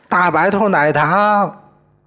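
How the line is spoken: Remembering. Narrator (Chinese): 他们的父母想起来了，他们说

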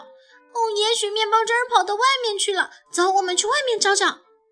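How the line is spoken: Startled shout. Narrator (Chinese): 丽娜大吃一惊，喊道

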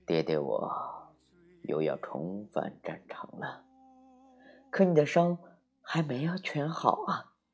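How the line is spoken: Murmuring. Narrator (Chinese): 花狐喃喃地说

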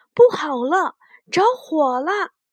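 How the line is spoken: Alarmed shout. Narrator (Chinese): 雪孩子看见小木屋里的窗子冒出了黑烟和火星，大喊

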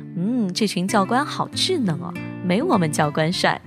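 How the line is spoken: Half-joking. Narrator (Chinese): 半开玩笑的跟室友说

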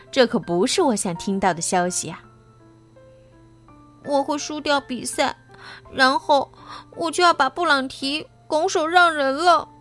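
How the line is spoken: Sighing. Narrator (Chinese): 他叹了口气说

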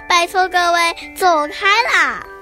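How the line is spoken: Frog shouting loudly. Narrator (Chinese): 青蛙大声地喊

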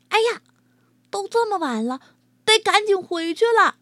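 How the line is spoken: Sudden loud call. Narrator (Chinese): 谁嚷嚷了一句

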